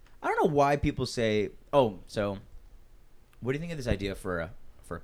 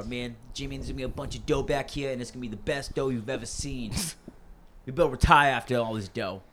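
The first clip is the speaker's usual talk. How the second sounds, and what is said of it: Put-on Boston accent. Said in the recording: “they have a little bit of Boston accent. ... The fact that he's still trying to do accents.”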